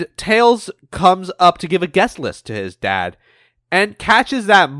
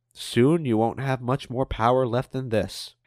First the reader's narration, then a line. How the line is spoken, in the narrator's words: Amadeus mutters